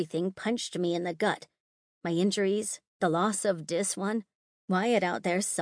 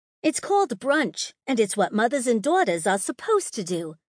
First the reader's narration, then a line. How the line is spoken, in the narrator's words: she snapped, as her eyes momentarily glowed as red as her hair